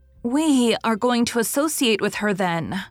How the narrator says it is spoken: cried Nan Blythe

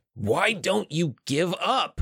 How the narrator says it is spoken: he yelled

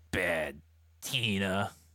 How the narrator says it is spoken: he growled in anger and fury, pronouncing each syllable like an airstrike

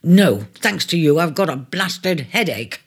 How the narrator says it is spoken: he answered curtly, feeling out of sorts

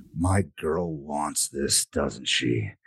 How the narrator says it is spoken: He growls

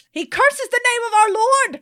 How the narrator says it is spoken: Vesperia shouts

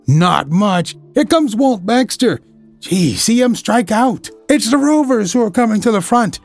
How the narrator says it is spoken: exclaimed Ned Lowe

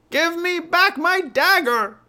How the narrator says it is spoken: she yelled

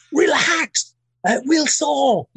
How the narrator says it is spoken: shout at me

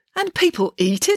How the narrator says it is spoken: exclaimed Mum

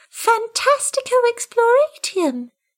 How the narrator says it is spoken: exclaimed the kitten

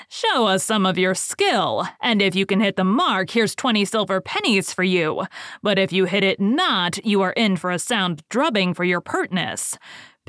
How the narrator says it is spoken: the leader said with a frown

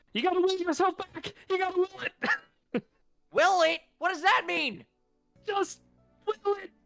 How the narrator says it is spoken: Dane just yells out

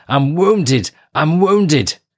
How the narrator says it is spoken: a commando who shouted

